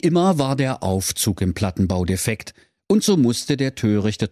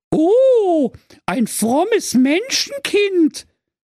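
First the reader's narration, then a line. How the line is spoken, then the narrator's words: Delighted fairy exclaiming. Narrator (German): rief die Fee entzückt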